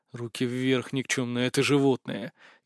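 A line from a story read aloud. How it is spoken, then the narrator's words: Quiet hiss. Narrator (Russian): тихо прошипел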